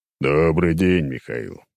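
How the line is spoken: Deep bass voice. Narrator (Russian): пробасил он

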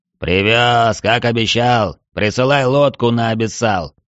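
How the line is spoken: Dignified booming. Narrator (Russian): с достоинством прогудел Цверк

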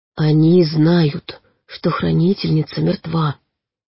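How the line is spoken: Barely audible. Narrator (Russian): едва слышно сказал он

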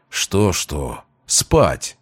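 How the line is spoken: Grumbling. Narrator (Russian): буркнул Велесов

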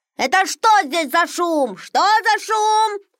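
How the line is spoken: Shouted. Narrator (Russian): закричал он

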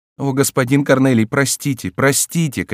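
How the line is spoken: Shouting. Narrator (Russian): кричала Роза

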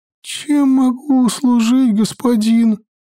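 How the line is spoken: Broken-voiced question. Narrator (Russian): сломленным голосом спросила я

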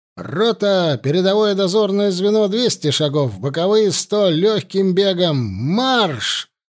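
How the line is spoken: Shouted command. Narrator (Russian): крикнул поручик

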